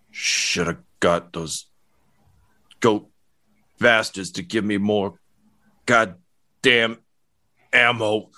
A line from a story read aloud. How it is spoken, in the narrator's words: he's kind of trembling, and he just mutters